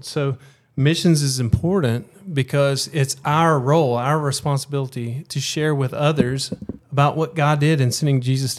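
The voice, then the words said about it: Alabama Southern US accent. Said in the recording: “from your accents, not from South Florida ... You're from Alabama”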